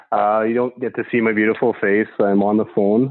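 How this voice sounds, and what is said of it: Strong Canadian accent. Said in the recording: “your accent is too, like, it's fucking way too Canadian”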